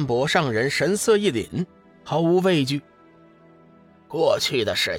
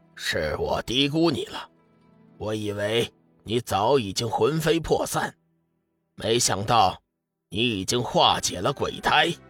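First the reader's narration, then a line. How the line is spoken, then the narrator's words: Cold. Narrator (Chinese): 昊天鬼圣冷冷地说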